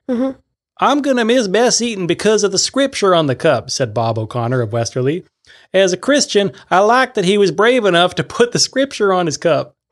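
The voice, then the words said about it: Put-on accent, not New England. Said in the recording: “I know this is New England, but I'm doing the accent that I want.”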